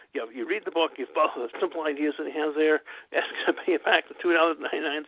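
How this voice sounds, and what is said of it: Slurred voice after strokes. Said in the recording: “my weird stroke voice ... since the strokes, once in a while my voice just does weird things. My jaws don't work right.”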